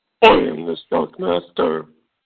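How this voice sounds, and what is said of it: Low, deep character voice. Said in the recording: “doing the low Shockmaster voice.”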